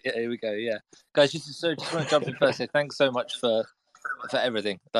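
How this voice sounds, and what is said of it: British accent. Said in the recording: “The battle of British accents.”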